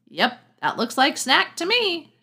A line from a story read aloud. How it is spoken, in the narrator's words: shouted Will